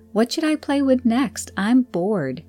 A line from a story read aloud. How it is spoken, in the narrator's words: whines